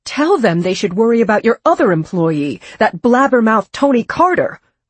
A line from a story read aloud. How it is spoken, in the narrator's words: Marge said fiercely